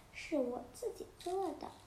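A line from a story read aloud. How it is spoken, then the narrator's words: Soft, child's voice. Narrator (Chinese): 小男孩轻声地说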